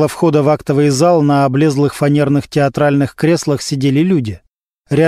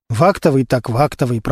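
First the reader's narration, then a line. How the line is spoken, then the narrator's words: Muttering under breath. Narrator (Russian): пробормотал себе под нос Костя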